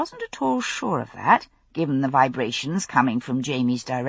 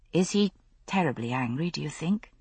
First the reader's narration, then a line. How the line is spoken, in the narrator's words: I asked in a low voice